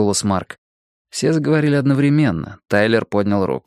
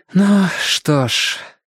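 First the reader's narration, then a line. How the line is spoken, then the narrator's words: Loud exhale. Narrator (Russian): Кэндл шумно выдохнула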